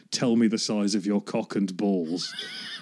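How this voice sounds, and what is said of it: Imitates a film character's voice. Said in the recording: “In a very Withnail voice,”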